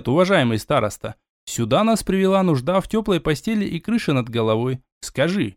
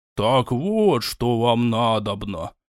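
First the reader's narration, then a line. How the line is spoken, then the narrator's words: Disappointed drawl of elder. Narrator (Russian): Разочарованно протянул староста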